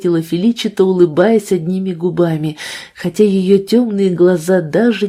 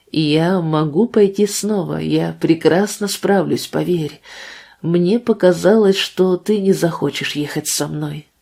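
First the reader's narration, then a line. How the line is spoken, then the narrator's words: Sighing. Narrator (Russian): добавила она, вздохнув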